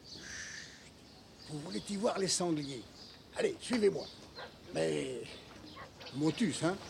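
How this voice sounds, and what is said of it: Rural French regional accent. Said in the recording (French): “il y a l'accent”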